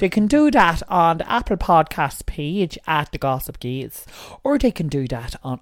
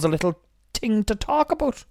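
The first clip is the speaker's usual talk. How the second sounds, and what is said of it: Put-on Irish accent. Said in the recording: “I don't know why I went Irish there.”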